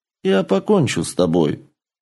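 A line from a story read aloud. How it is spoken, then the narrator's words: Calm warrior reply. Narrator (Russian): спокойно ответил воин-дракон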